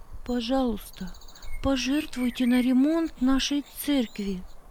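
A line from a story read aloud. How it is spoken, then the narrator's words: Timid request. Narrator (Russian): робко попросила Маргарита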